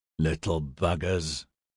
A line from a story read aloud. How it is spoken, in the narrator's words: Boyd grunted